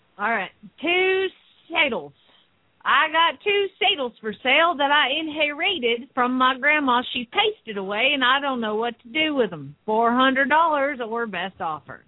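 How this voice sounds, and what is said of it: Put-on Southern accent. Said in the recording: “Southern accent.”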